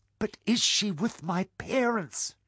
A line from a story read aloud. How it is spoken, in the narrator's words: Jasper cried